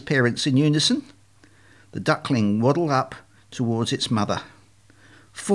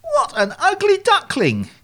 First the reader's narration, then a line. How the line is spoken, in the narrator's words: exclaimed Admiral Drake